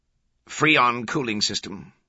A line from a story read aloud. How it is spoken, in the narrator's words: Kohler replied